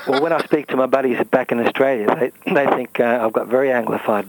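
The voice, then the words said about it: Australian accent. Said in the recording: “You still got the Australian accent. ... After all these years.”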